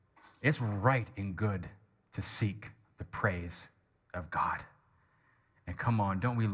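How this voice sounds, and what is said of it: Usual voice. Nothing is said of it.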